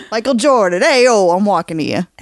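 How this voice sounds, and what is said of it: Put-on Chicago accent. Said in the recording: “There's that Chicago accent coming out.”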